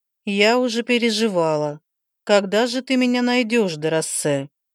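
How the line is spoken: Singsong voice. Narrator (Russian): Певучим голосом продолжала она

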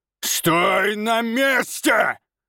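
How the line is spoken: Roared. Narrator (Russian): Взревел он

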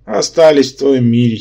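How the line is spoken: Giggle. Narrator (Russian): хихикнул Керранке

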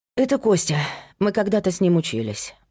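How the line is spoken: Sighing. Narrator (Russian): вздохнула

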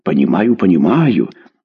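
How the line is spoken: Frightened small plump man. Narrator (Russian): испуганно закивал начальник, небольшой толстенький дядечка

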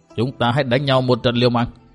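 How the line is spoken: Cold. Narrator (Vietnamese): Độc Trung Chi Độc lạnh lùng nói

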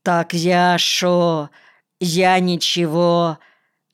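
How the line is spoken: Drawling, uncertain. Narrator (Russian): Наконец тянет он неуверенно

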